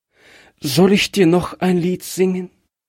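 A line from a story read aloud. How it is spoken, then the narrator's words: Trembling voice. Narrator (German): fragte es mit bebender Stimme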